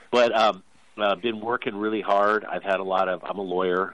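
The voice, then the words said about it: Voice sounds stuffy from a cold. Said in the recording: “As you may be able to tell from my voice, I have a bit of a cold”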